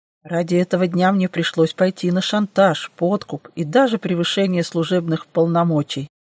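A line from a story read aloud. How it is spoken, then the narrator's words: Good-natured grumble. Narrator (Russian): беззлобно проворчал Дэн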